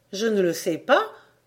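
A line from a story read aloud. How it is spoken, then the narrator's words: Plain. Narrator (French): répondit ma mère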